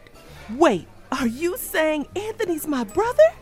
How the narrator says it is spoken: I gasped

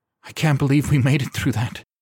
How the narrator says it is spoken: Skylar finally gasped

